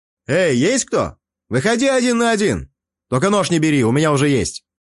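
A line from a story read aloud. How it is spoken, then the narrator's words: Shouting. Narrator (Russian): прокричал я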